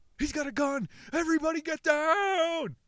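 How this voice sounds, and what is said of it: Strained shouting, voice near breaking. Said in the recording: “My voice is about to break.”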